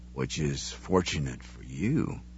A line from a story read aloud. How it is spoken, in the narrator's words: he murmured